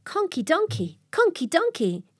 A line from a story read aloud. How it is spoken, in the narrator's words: cried Mucky Ducky